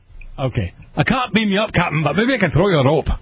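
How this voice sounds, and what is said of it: Scotty-style Scottish accent. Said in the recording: “I only have one Scottish accent, and I can only do it one way ... Scotty from Star Trek”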